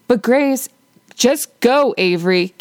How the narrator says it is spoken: Katie barks

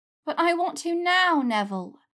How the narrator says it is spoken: she whined

